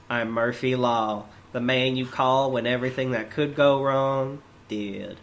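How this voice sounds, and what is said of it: Imitates another person's voice. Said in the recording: “I have to do my best Jack impression.”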